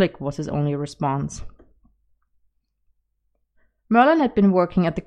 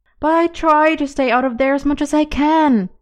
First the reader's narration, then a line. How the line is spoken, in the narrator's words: he was pleading with the old man